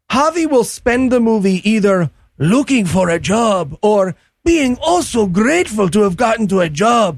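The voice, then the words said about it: Exaggerated Hispanic accent impression. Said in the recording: “a really, really offensive impersonation of Hispanic people ... a perfect impersonation of Javi's character”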